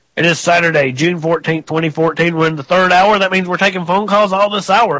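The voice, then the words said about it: Rough, strained sick-sounding voice. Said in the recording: “I apologize for my voice. I've been getting over about a 10-day cold”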